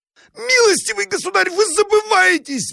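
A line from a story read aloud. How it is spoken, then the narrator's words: Shrill squeal. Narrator (Russian): взвизгнул Абогин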